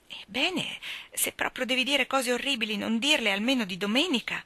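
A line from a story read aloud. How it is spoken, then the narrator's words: Pleading. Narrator (Italian): implorò Dora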